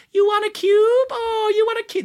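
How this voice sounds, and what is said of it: High-pitched baby-talk voice. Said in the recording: “in a high voice ... I'm doing this voice ... back to a normal voice”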